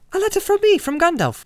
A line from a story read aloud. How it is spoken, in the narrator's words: cried Frodo